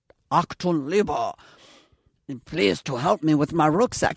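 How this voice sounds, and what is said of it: Mock German accent. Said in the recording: “I don't do a German accent ... do you want me to work on the German accent?”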